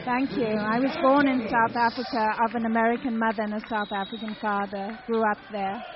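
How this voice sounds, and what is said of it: South African English accent. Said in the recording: “You have such a lovely accent.”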